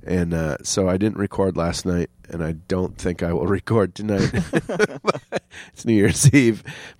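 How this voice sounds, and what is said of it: Congested voice from a cold. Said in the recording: “as you can tell, I have a head cold.”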